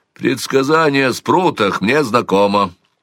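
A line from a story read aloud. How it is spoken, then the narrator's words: Dry reply. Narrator (Russian): сухо ответил отец Алкис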